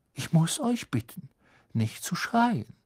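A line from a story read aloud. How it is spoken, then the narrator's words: Quiet voice. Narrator (German): sagte Lockhart mit leiser Stimme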